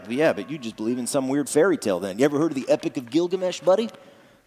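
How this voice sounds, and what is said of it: Mocking impression of an atheist. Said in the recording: “that's my atheist impersonation.”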